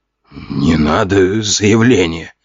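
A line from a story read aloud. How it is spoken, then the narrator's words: Wheezing rasp. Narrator (Russian): прохрипел очкарик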